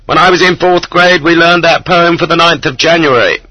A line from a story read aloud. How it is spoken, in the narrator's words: He shouted in Russian this time